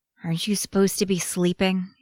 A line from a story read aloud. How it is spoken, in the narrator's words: mumbles